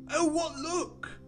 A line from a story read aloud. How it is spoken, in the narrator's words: cried Veg